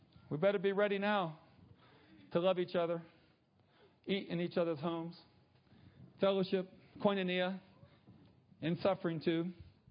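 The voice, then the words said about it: Slight Southern American accent. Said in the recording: “Have I got a southern accent going on here? ... I think I'm getting it too.”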